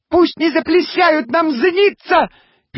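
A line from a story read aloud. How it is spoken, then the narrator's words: Squeaky little voice. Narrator (Russian): пискнул голосок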